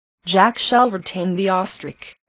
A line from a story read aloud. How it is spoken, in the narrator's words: said